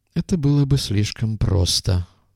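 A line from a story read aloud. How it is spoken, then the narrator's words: Muttering. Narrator (Russian): пробормотал док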